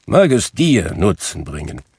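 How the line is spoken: Grumbling. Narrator (German): brummte Scrooge

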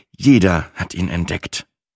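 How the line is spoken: Quiet, ashamed answer. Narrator (German): antwortete ich leise

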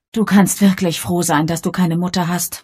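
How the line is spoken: Sighing. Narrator (German): seufzte Bridget

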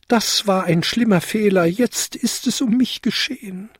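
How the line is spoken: Wailing. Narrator (German): jammerte er

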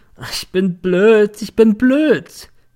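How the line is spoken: Drunk, remorseful, sobbing nonstop. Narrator (German): hatte sich besoffen, hatte nun einen moralischen und schluchzte in einer Tour

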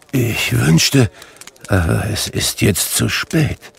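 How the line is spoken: Tearful murmur. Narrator (German): murmelte

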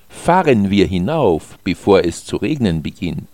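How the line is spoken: Plain. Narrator (German): sagte Alex

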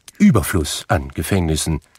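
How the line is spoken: Plain. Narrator (German): sagte der Herr

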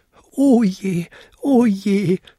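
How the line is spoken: Wailing. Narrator (German): jammerte er

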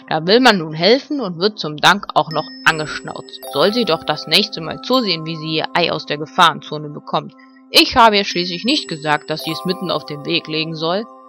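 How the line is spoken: Angry growl. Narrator (German): knurrte Ben verärgert

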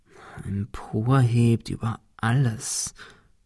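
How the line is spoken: Murmured. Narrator (German): murmelte Ben

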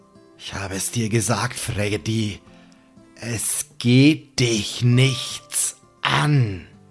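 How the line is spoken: Low sonorous murmur. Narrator (German): Sam raunt mit seiner sonoren Stimme

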